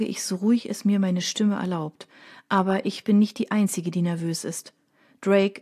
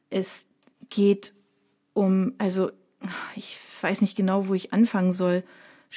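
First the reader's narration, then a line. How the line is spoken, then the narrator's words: Stammering to himself. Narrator (German): stottert er vor sich hin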